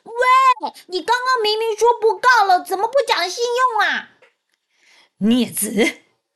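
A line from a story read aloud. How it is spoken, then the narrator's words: Unaware, loud shouting. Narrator (Chinese): 哪吒还不知道事态的严重，大喊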